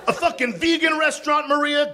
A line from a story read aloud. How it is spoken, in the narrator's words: Guy yelled